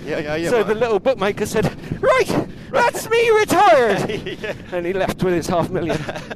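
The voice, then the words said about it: Put-on Irish accent. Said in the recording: “making him Irish there ... do an Irish accent”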